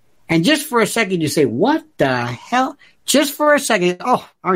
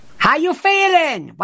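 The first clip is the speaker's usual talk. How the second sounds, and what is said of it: Yelled foreign-accented nurse voice. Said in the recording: “some nurse who has a foreign accent yelling your name”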